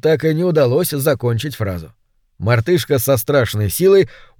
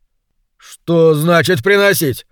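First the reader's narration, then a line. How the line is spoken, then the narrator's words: Irritated question. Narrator (Russian): раздраженно поинтересовался Кенни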